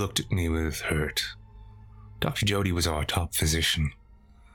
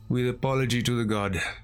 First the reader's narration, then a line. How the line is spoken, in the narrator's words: sighed